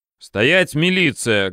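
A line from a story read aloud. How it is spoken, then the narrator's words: Loud bark. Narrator (Russian): гаркнул я неизвестно кому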